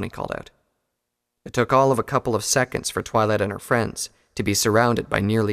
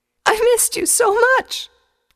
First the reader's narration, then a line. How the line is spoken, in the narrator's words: the filly said between sobs